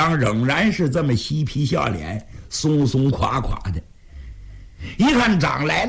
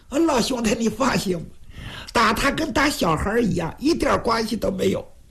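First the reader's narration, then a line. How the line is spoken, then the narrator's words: Jokey, teasing. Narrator (Chinese): 徐良嬉皮笑脸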